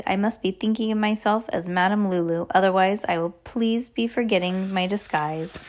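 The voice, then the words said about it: Put-on foreign accent. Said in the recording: “You don't have to use your accent right now”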